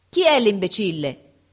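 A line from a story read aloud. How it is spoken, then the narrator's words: Shouting at full lung power. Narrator (Italian): gridò con tutta la forza dei suoi polmoni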